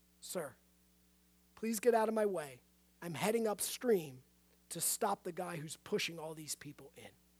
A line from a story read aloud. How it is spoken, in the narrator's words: said in a calm, focused voice